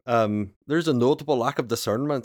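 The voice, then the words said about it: Attempted Scottish accent. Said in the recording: “in like a Scottish accent ... I know what a Scottish accent sounds like.”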